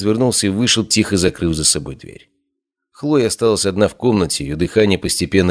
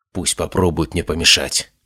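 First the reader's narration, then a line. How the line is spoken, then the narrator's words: Whisper. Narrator (Russian): прошептала она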